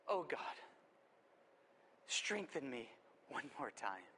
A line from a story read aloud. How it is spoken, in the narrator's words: in his weakness and his vulnerability, Samson prayed under his breath